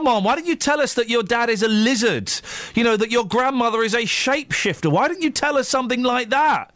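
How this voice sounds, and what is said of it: Usual voice. Nothing is said of it.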